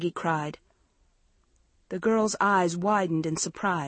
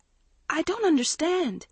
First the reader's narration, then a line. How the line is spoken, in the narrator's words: Maggie stammered